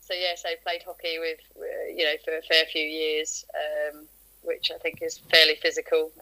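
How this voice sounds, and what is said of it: Southern English accent. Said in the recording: “originally I'm from sort of down south, as you can probably tell from my accent.”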